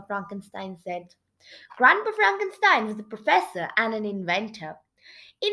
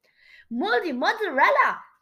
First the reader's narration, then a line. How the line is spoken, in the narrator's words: Geronimo gasped